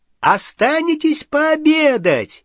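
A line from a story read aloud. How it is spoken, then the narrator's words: Shouted. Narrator (Russian): крикнул он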